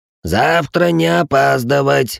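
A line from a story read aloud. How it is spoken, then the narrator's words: Old man's creaky voice. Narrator (Russian): проскрипел старик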